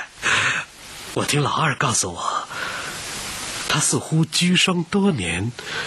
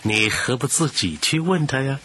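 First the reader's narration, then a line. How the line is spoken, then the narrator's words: Wry bitter smile. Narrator (Chinese): 只好报以苦笑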